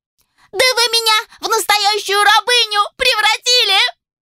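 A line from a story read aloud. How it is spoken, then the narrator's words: Shriek. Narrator (Russian): провизжала Моника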